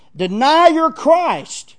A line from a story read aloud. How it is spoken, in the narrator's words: the governor, shouted